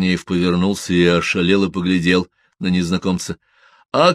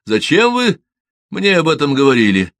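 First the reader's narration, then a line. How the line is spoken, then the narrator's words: Shouted. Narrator (Russian): крикнул Игорь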